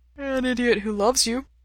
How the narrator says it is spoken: Ray says with a yawn

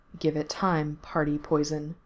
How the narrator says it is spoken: Mikey told him softly

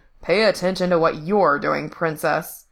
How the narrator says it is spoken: grumbling

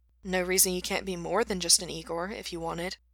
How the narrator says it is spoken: Gerard murmured sympathetically

